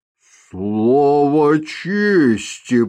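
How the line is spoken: Drawling. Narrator (Russian): протянул он

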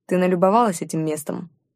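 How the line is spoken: Gloomy question. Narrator (Russian): мрачно спросил Чингар

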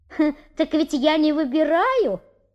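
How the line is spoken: Sly exclamation. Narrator (Russian): воскликнул хитрый механик

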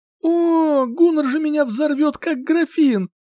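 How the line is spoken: Groan. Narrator (Russian): простонала

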